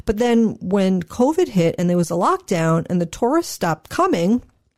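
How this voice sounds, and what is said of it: New York accent. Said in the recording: “The New York accent came out.”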